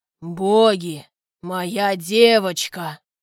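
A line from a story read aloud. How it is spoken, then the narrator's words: Angry growl. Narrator (Russian): отец злобно рыкнул на спасшего меня дядю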